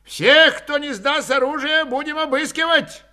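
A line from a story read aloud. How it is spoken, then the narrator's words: Cheerful grinning shout. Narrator (Russian): крикнул Спиридонов, весело и широко осклабляясь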